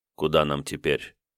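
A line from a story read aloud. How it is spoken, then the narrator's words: Quiet question. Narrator (Russian): тихо спросил Давмонт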